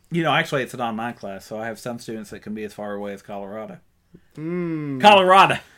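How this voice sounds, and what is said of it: Eastern Kentucky accent. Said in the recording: “why does this guy have an Eastern Kentucky accent?”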